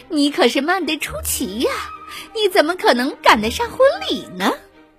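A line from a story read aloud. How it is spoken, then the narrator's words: Suppressing laughter. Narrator (Chinese): 他终于忍住了笑，说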